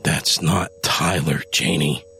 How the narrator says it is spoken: Adam growled

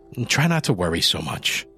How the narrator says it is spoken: Mikey replied

